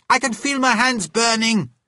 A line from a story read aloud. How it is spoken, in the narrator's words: shouted